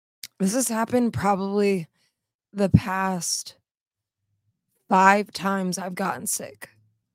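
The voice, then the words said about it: Hoarse, losing voice. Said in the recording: “losing my voice”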